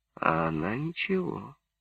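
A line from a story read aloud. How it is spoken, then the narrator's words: Whispered. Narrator (Russian): сказал шепотом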